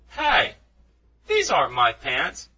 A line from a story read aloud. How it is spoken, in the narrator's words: he exclaimed